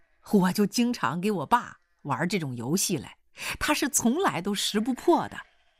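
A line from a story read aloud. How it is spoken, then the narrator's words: Hearty laughter. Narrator (Chinese): 刘洪兵哈哈哈一阵大笑说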